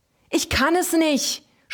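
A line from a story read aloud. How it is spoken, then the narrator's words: Screamed. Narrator (German): schrie er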